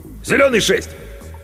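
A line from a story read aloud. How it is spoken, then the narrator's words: Shouted, cut short. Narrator (Russian): Он не закончил и крикнул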